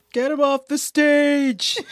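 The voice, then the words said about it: Impression of Muppet hecklers' voices. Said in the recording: “my Statler and Waldorf impression”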